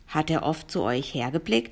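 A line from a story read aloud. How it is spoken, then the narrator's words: Plain question. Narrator (German): fragte der Professor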